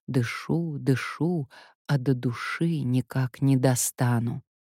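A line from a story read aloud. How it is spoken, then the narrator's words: Parting whisper. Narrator (Russian): Расставаясь, шептала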